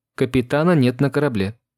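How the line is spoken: Calm, terse. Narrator (Russian): спокойно и лаконично ответил Ватсон

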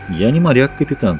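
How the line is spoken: Calm voice. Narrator (Russian): сказал Маккой своим спокойным голосом

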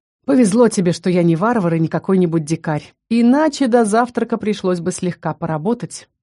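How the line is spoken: Snort, then speech. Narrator (Russian): Зардис хмыкнул и произнес

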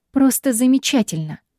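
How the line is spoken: Irritated shout over water. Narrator (Russian): раздраженно бросаю я, перекрикивая шум воды

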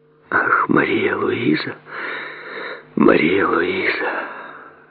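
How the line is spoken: Whispered. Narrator (Russian): прошептала она

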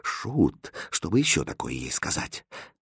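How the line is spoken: Quiet question, king. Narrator (Russian): Король тихо спросил

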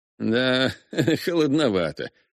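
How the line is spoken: Eager laugh. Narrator (Russian): с готовностью рассмеялся Руперт

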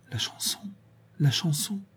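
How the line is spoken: Murmured. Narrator (French): Véronique murmura

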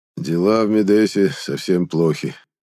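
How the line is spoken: Head of family's sad exhale. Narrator (Russian): печально выдохнул глава семьи

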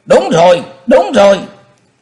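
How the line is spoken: Loud clamoring crowd. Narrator (Vietnamese): Bọn Diêm Bang quần hùng nhao nhao kêu lên ầm trời

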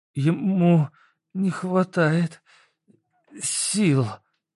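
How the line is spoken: Forced out. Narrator (Russian): выдавила из себя Света

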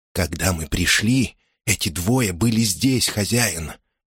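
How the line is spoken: Whisper in the ear. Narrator (Russian): прошептал он мне на ухо

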